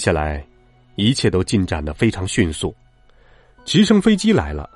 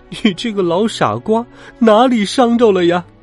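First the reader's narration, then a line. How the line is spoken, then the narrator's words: Crying out. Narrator (Chinese): 格尔林太太哭喊起来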